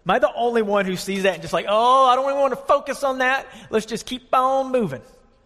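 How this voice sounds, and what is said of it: Southern twang. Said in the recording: “my southern twang coming out there ... that beautiful accent”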